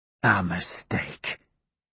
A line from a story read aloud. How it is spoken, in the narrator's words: he whispers to me